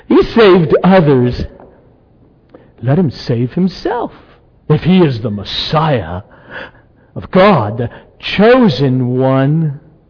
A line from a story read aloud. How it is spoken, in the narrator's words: the ruler scoffed at him, saying